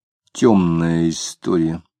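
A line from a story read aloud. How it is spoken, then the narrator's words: Quiet. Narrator (Russian): тихо сказал он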